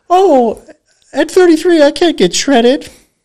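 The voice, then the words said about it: Mickey Mouse impression. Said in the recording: “Okay, that's Mickey Mouse.”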